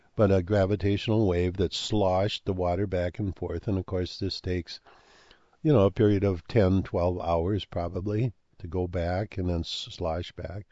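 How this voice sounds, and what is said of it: Strained voice, losing his voice. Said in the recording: “I'm losing my voice ... I'm kind of losing my voice”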